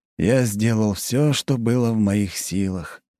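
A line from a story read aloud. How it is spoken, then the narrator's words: Sighing. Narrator (Russian): вздохнул Плотников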